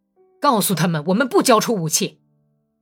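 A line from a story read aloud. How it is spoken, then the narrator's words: Furious high hoarse shout. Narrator (Chinese): 本丘克气得浑身直哆嗦，用高亢的不成声的哑嗓子喊道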